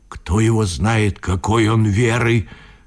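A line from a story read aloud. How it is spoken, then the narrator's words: Group whispering. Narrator (Russian): шептались промеж себя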